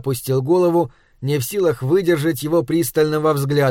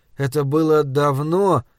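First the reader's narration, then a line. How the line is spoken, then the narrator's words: Uncertain. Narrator (Russian): неуверенно выговорил я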